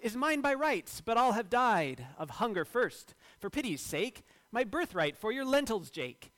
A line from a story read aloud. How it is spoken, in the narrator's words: Esau cried